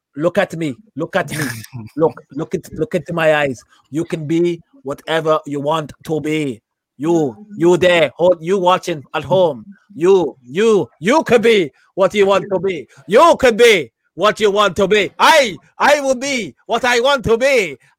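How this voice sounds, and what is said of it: Imitates another person's voice, muddled accent. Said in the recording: “a small Indian man ... that was not an Indian accent ... It wasn't a Swiss accent either ... you started off pretty good and then you went into some madness ... It went a little bit Irishy”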